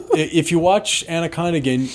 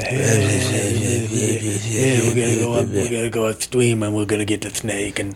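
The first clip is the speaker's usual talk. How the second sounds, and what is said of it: Imitates another person's voice. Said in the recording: “he is totally doing late stage Brando”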